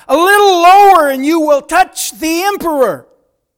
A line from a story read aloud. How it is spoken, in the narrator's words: the surgeon cut deeply and the patient cried out